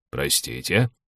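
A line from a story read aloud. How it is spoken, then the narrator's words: Mumbling. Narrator (Russian): промямлил Тонор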